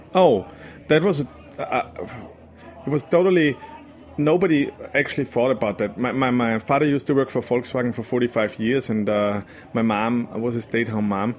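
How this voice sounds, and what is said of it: Austrian accent. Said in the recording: “I know you're from Austria. I mean, unless that accent's Queens.”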